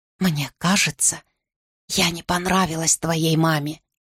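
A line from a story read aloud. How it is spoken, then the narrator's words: Whispered. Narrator (Russian): шепотом сказала я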